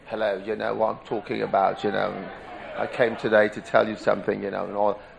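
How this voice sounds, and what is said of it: Put-on British accent. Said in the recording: “you hear people speaking with a British accent.”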